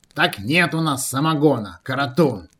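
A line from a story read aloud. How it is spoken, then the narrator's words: Old man, offended interruption. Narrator (Russian): Перебил старик даже как-то обиженно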